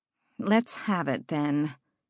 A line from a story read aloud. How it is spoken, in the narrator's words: Catriona sighed